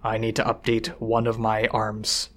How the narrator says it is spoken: Snag said, his voice low

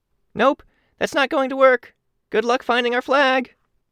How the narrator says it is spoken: Kenzie called out

